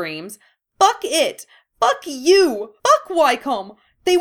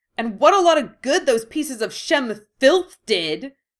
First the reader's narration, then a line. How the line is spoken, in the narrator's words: She snarls